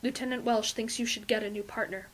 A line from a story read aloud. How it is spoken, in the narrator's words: Fraser says quietly, and it isn't a question